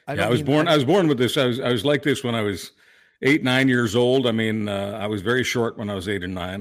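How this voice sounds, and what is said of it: Distinctive throwback radio voice. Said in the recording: “You have one of those great voices... voices that are just very, like, oh, I know who that is immediately... that throwback radio voice”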